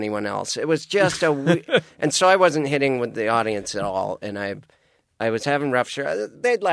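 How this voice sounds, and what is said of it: Usual voice. Nothing is said of it.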